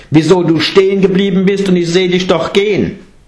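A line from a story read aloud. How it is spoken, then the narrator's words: Calling out. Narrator (German): rief Angulimala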